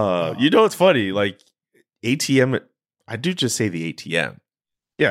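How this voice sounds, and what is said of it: Usual voice. Nothing is said of it.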